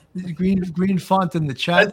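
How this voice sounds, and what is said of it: Put-on Brooklyn accent. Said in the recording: “That's a Brooklyn accent.”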